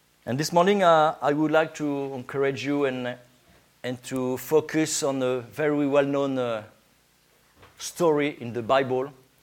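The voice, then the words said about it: French accent. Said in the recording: “my Scottish accent, no, my French accent”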